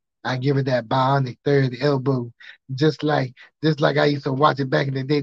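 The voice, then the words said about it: Imitates another person's voice. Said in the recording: “Dusty Rhodes impersonation”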